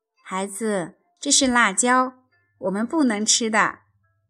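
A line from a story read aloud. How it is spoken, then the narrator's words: Smiling. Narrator (Chinese): 妈妈笑了笑说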